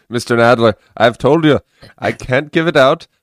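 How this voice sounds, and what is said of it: Put-on Irish accent. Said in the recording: “do an impression? ... You're my Irish doctor”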